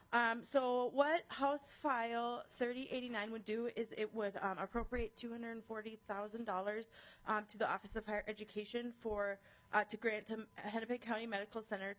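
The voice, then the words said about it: Out of breath, breathless speech. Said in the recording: “Sorry, I'm out of breath. I ran over here from my liver committee at the Capitol”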